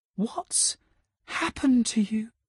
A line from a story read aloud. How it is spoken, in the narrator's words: MJ whispered